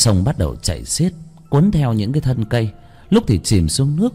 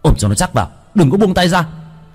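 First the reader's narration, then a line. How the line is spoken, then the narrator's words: Shouted. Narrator (Vietnamese): Bác cổ hét lên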